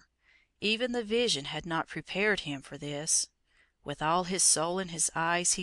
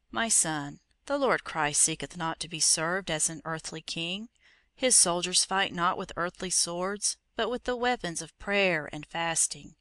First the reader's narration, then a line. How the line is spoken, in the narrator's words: The hermit in his calm, kind voice he said